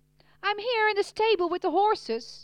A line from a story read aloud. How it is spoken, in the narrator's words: yelled back